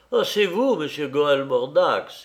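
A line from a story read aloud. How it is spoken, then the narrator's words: Exclaiming. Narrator (French): s'écria-t-il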